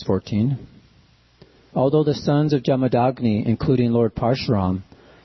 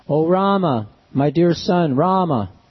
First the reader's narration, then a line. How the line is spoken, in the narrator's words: Lamenting in grief for the death of her husband, the most chaste Renuka struck her own body with her hands and cried very loudly